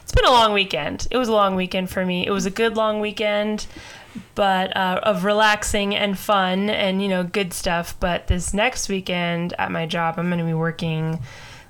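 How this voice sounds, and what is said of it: Raspy, strained voice. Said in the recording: “My voice is probably going to die some point tonight. ... Might be sounding pretty raspy.”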